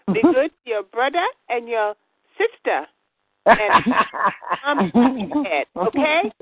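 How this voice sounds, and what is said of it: Child's little half-Spanish accent. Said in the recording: “with her little half-Spanish accent”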